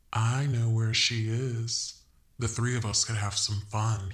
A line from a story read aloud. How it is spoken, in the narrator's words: purred